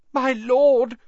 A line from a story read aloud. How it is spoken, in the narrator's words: gasped the man on the floor